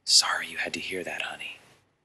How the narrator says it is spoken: whispering in her ear

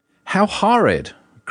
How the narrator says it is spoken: cried Mrs

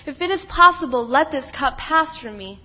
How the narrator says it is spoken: He cried out to his Father

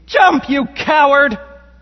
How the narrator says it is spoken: A male voice from my right side, I heard him scream to me

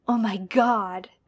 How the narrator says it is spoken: John says in a gasp, because he's pretty sure Teresa didn't have a mouth like this

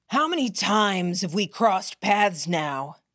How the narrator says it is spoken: Catcher bellowed

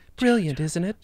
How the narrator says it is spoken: Laura breathed heavy into Tommy's ear

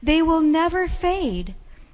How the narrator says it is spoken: I cried out

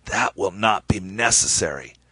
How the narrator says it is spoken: The ambassador shot me a disgusted look and said in a raspy voice

